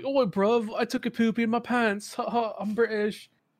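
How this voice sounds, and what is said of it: Deliberately bad British accent. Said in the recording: “I love doing shitty British accents ... shitty British accents are my favorite”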